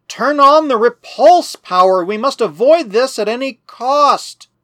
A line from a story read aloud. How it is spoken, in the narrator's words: the captain he cried